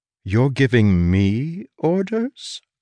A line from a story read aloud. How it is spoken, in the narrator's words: I said softly